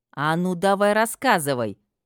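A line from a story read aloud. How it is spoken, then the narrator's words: Menacing bark. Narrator (Russian): Грозно рявкнула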